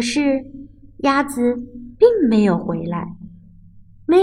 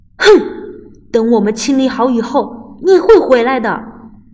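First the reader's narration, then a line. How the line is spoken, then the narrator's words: Angry roar. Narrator (Chinese): 猫生气的大吼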